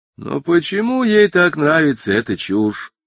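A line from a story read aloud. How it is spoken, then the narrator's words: Almost plaintive question. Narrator (Russian): почти жалобно спросил жену мистер Делливан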